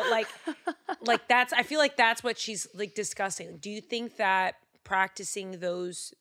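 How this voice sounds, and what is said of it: Usual voice. Nothing is said of it.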